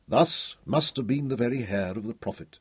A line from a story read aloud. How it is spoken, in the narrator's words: he said softly